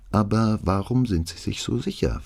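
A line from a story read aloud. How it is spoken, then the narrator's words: Plain male question. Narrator (German): fragte er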